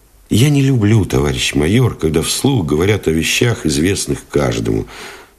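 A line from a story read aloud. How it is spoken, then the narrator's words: Plain. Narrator (Russian): сказал Новиков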